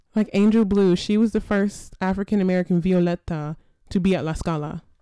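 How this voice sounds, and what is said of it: Italian pronunciation with flair. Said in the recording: “accent. You heard that panache in there? ... Come on, diction.”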